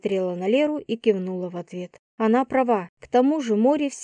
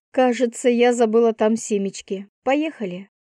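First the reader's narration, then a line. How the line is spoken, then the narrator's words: Amused snort. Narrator (Russian): хмыкнула я и добавила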